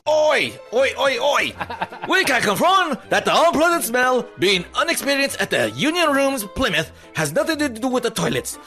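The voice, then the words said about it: Poor put-on British accent. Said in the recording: “Is that the worst UK accent ever?”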